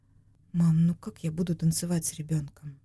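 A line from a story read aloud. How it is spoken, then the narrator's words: Quiet question. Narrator (Russian): Тихо спросила Валя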